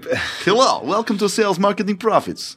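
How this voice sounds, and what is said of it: Put-on Russian accent. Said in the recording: “We'll do it in a Russian accent”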